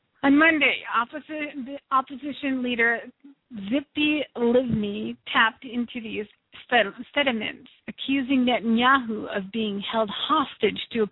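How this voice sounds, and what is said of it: Strained voice, losing voice. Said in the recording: “apologize for my voice. I am actually losing my voice a little bit ... if I sound a bit funny or if I'm a bit off in my talking”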